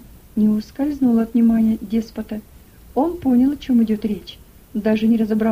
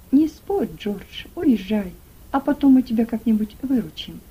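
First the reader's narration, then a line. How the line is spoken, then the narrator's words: Kindly undertone. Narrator (Russian): доброжелательный фабрикант сказал вполголоса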